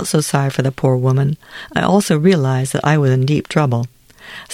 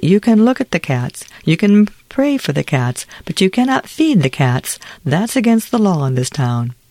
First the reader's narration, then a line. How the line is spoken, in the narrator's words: said the judge kindly